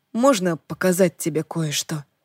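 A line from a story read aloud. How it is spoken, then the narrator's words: Soft question. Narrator (Russian): мягко спросил Джордан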